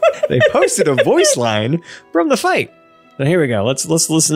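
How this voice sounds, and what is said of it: Usual voice. Nothing is said of it.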